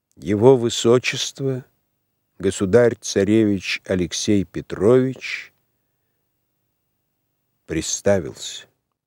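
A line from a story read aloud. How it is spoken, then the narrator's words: Solemn announcement. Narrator (Russian): объявил торжественно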